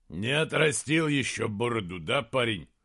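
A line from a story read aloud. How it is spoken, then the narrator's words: Growl. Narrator (Russian): прорычал Эйстан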